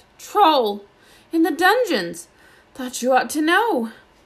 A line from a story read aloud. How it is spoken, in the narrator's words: gasped